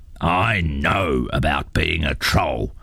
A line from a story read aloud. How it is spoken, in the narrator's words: grunted his father